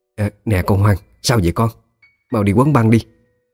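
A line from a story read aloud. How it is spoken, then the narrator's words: Woman crying out. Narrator (Vietnamese): Một bà cô thấy vậy thì la lên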